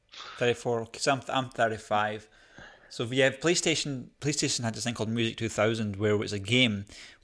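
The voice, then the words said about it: Scottish accent. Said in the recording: “Must be the Scottish accent.”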